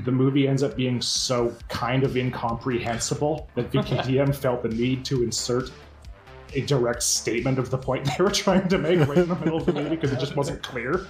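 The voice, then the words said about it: Canadian accent. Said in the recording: “I could hear your Canadian accent slipping through. It sounded Canadian when you were saying so much of that.”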